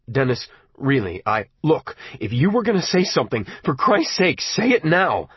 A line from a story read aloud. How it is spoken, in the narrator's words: I cried